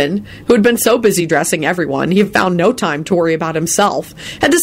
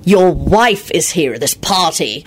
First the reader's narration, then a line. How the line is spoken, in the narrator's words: he snarled